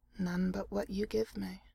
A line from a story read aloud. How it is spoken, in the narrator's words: Jareth said softly